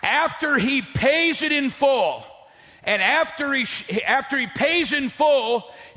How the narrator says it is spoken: he shouts

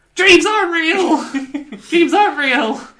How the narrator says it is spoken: Pearl just screams

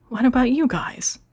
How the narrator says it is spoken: Copper whimpered

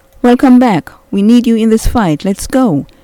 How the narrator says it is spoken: exclaimed

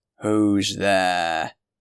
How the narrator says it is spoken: he cried, in a terrible voice

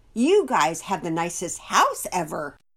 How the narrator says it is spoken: added eagerly

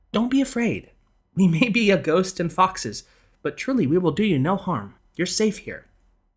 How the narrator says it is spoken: Tertia sensed his rising panic and motioned him to remain calm, telling him soothingly

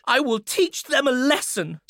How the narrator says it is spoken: spluttered the boy

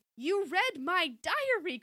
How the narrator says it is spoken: Chrissy cried, suddenly remembering

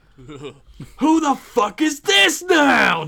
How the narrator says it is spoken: Jason screamed out

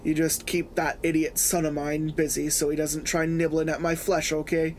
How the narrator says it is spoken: He sighed

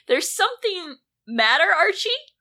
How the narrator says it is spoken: Jughead exclaimed

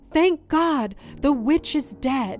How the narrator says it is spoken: John Blymire then looked upon his handiwork and cried

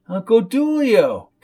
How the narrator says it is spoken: exclaimed Coco

